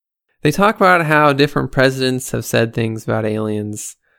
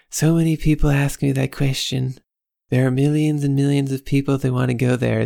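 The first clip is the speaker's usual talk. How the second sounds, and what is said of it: Bad Donald Trump impression. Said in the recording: “my Trump impression, ... I know you think it's bad ... And it is bad.”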